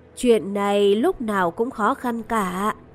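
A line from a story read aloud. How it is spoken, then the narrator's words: Elderly sigh. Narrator (Vietnamese): Người khách hàng lớn tuổi thở dài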